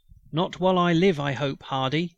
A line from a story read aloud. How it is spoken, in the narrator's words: cried the dying chief